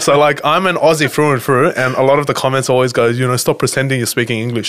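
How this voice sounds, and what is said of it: Lebanese-Australian style Aussie accent. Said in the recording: “like an Aussie accent ... stop pretending you're a Lebo ... this is my accent ... all my friends are Lebos or Islanders ... This is just my actual accent ... All the Asians there sound like this”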